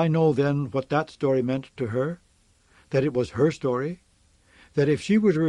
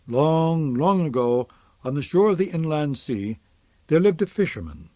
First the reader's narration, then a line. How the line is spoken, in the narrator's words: smile a little and sigh, and begin